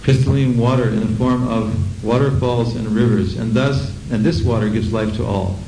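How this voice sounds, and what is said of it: American accent. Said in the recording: “In the United States we say crystalline. I told you, you have to bear with a strange accent.”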